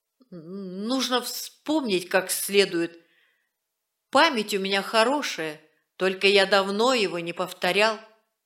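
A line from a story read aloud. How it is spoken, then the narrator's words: Stammering, forced out. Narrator (Russian): Стриж, запинаясь, выдавил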